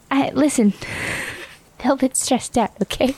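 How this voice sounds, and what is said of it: Character accent voice. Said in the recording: “you switched into the accent.”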